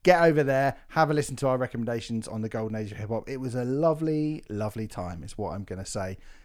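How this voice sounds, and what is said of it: Gruff, hoarse sore-throat voice. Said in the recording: “I've got really bad sore throat ... You sound outrageously gruff, but kind of sexy. Late night DJ voice.”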